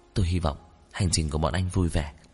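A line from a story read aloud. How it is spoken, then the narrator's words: Quiet voice. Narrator (Vietnamese): Dư Y nhỏ giọng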